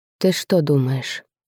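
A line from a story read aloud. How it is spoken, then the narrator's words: Quiet question. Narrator (Russian): спросил тихо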